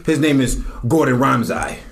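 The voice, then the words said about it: Bad put-on Wakanda accent. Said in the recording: “That's horrible for like a Wakanda accent. Like, that's bad.”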